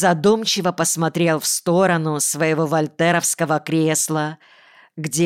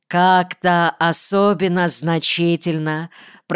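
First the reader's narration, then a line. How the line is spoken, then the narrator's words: Low heartfelt male voice. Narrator (Russian): произнес отец своим низким проникновенным голосом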